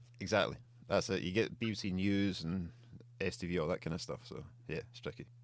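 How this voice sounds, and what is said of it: Scottish accent. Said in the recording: “It proper struggles with a Scottish accent as well. Like, I need to slow it down”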